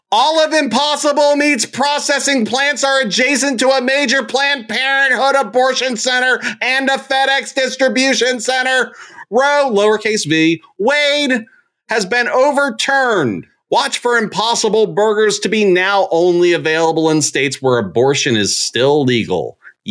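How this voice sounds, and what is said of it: Loud, shouted reading voice. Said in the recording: “I read it in my loud voice because it was in all caps”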